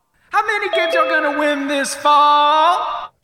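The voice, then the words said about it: Singing in a bad falsetto. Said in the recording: “singing, ... in a horrible falsetto.”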